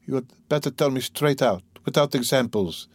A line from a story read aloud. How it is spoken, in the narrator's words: she begged, still more timidly and scarcely audibly